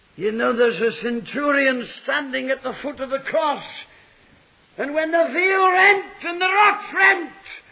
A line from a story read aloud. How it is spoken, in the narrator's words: cried